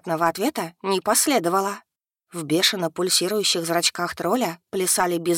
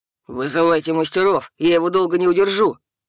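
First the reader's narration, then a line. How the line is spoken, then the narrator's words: Barked shout. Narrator (Russian): рявкнул повар Силаторх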